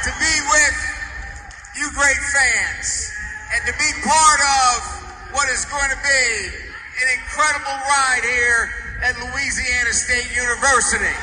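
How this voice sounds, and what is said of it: Slow, thick Southern drawl. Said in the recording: “He really had his Southern drawl ... it's like molasses falling out of your mouth.”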